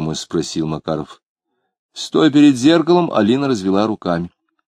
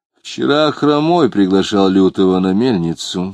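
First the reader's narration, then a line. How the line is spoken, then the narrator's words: Plain. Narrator (Russian): сказал Клим девушке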